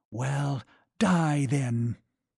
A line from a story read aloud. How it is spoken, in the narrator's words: he hissed between his teeth